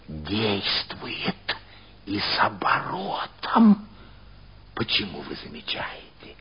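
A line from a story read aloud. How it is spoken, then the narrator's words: Whisper. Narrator (Russian): шепнула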